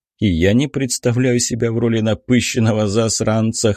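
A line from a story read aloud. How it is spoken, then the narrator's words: Wry snort. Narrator (Russian): хмыкнул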